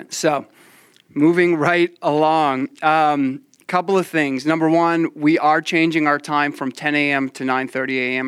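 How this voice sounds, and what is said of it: Slightly altered, swollen-mouth speech. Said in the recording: “I'm still a little tender and I'm still a little swollen, so that's why I sound different.”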